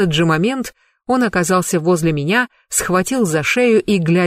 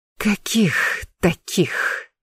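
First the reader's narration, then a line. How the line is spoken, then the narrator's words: Hoarse rasp. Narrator (Russian): прохрипела я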